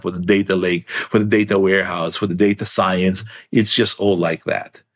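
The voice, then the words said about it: Excited, energetic voice. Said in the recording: “You can hear it from my voice. I'm so excited. ... Yeah, I can hear it.”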